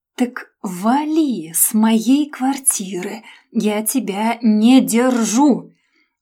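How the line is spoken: Syllable-by-syllable hiss. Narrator (Russian): Процедила по слогам

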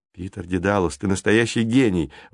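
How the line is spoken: Smiling exclamation. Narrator (Russian): воскликнул Джейсон, улыбаясь

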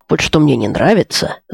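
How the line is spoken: Grumbling. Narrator (Russian): заворчал Маркин

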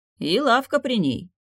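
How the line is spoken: Wizard's snort. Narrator (Russian): хмыкнул колдун

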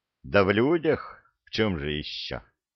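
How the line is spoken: Sighing. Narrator (Russian): Вздохнул Санти

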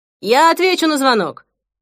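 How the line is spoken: Shouted from below. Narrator (Russian): прокричал снизу Перри

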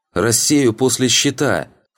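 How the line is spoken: Shout. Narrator (Russian): крикнула она

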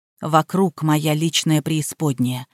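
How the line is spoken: Whisper. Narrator (Russian): шепнул Ян

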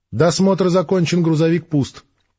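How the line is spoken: Flat colorless report. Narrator (Russian): бесцветным голосом доложил он

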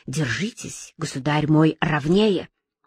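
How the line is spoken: Quiet and angry. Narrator (Russian): Безбородко сказав ему тихо и сердито

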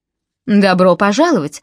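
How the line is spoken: Exclaimed. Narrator (Russian): воскликнул

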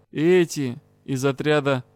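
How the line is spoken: Heavy sigh. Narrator (Russian): Дроусник окончательно тяжело вздохнул и добавил

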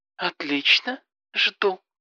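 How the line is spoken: Purring. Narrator (Russian): промурлыкала Алена

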